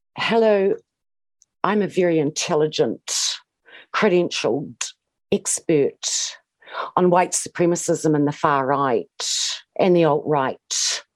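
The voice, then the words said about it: Imitates another person's affected speech. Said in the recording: “do a Kate Hannah impression? ... the way she speaks just irritates me so much ... she affects this gay man's speech”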